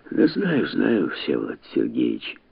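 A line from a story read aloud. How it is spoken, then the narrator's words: Muttered. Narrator (Russian): забормотал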